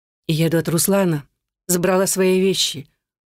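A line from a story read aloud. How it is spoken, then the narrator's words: Dejected reply. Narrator (Russian): уныло отвечаю я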